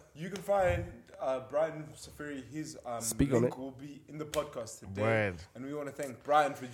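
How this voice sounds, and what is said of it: Usual voice. Nothing is said of it.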